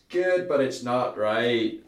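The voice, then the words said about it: Attempted Northern Irish accent. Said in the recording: “That was my attempt of a Northern Irish accent there.”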